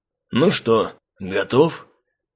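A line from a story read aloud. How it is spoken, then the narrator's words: Quiet question. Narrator (Russian): Тихо спросил меня Васа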